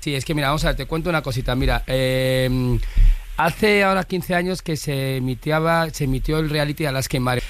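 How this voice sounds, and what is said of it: Put-on Valencian Spanish accent. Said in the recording (Spanish): “habla todo el rato con acento valenciano”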